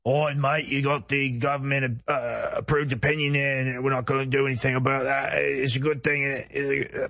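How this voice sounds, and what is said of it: British accent. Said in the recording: “They have such stupid voices ... The British accent”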